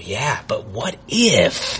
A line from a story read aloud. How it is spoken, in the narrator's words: my sleep-deprived brain would whisper